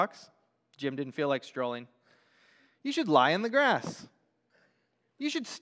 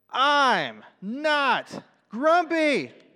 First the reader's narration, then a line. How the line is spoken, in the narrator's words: shouted Jim